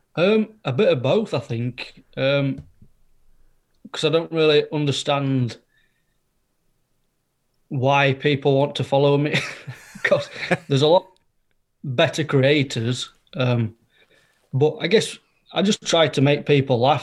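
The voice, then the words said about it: West Yorkshire accent. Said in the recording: “What's the accent? ... Yorkshire. West Yorkshire.”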